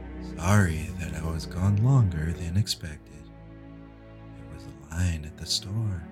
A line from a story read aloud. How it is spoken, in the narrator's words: Jason spoke calmly